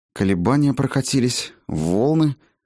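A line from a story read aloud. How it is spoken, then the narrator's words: Elf muttering. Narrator (Russian): пробормотал эльф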